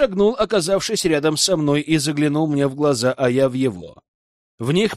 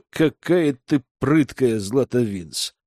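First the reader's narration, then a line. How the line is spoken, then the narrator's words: Insinuating, silky. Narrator (Russian): вкрадчиво произнес капитан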